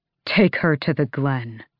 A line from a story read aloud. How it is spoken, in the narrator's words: his voice was deadly soft as he said